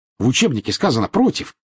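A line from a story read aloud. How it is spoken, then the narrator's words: Snapped back. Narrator (Russian): огрызнулась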